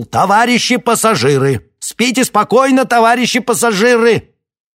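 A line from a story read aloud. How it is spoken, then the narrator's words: Shout. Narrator (Russian): он вдруг выкрикнул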